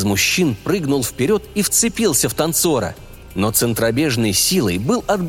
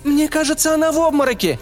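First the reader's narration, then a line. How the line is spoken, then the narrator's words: Young woman's shout. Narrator (Russian): крикнула девушка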